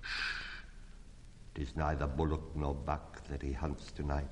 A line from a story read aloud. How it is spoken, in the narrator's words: said Mother Wolf